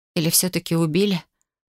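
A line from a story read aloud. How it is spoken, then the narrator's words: Hoarse, slurred rasp. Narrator (Russian): Прохрипела, с трудом ворочая языком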